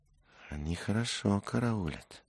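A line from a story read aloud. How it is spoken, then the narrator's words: Whisper. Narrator (Russian): шепнул Дик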